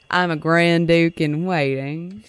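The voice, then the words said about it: Put-on Southern accent. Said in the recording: “I hope he says it with a Southern accent”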